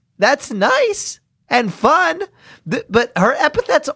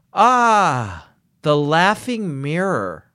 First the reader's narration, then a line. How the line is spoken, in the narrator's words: I sighed